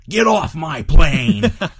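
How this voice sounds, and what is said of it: Angry yelled impression of an actor. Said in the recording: “I wish I could do a good Harrison Ford impression, but he can summon some deep anger ... he has this angry way of yelling”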